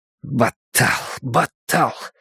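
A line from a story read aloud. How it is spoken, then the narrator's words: Muttering. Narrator (Russian): бормотал он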